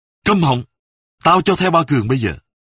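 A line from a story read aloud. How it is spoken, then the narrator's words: Angry shout. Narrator (Vietnamese): Giận dữ, Sâm quát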